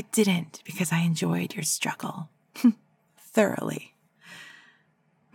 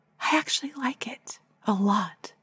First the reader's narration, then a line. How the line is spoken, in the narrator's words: whisper